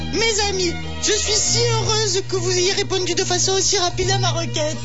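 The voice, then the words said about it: Southern French accent, slight tremolo. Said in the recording (French): “votre petit accent qui pue la rascasse ... dans cette voix comme un léger trémolo”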